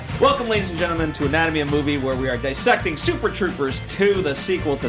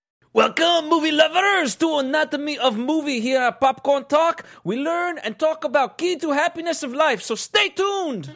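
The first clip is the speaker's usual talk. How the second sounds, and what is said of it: Put-on French accent. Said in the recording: “the last French accent I'll do in a while”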